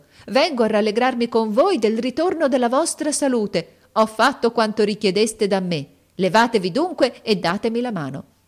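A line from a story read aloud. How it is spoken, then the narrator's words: Woman shouting. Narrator (Italian): gridò essa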